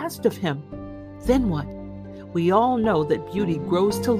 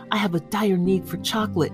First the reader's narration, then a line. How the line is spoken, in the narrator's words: he whispered